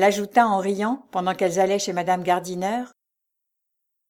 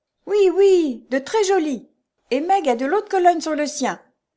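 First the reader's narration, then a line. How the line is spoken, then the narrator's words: Shouted. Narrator (French): cria Jo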